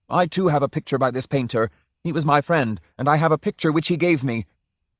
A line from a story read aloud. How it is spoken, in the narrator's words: Drioli was shouting